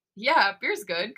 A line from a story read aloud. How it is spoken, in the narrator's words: Kai giggles